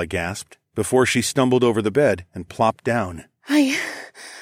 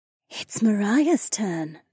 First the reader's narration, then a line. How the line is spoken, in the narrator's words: the dark-haired beauty whispered